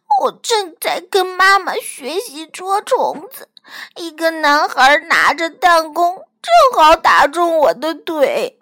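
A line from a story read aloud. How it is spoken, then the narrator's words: Crying. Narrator (Chinese): 小鸟哭着说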